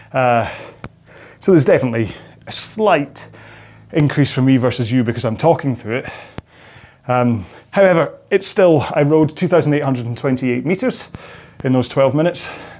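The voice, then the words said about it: Out of breath, panting speech. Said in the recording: “you can tell, I'm still out of breath.”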